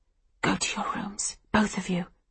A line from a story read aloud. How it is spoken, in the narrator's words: I whisper to Livy and Hannah